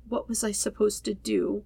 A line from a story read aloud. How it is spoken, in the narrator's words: He whispers miserably